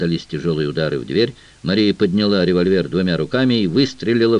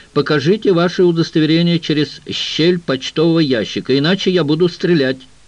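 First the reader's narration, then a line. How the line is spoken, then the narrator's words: Shouted. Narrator (Russian): Мария крикнула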